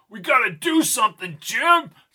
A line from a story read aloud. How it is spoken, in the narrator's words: shouted Albie